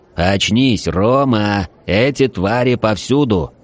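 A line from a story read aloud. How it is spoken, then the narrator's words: Angry hiss. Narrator (Russian): Зло прошипел Матвей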